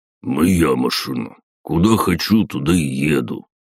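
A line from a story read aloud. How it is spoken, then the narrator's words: Grumbled. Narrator (Russian): пробурчал Василий Иванович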